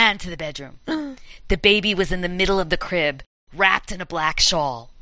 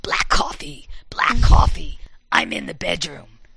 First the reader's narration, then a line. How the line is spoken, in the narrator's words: A crackling, raspy voice said